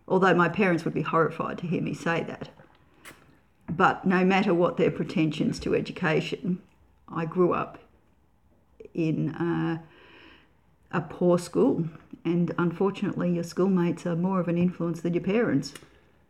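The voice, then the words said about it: Australian country accent. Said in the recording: “you might hear the country accent”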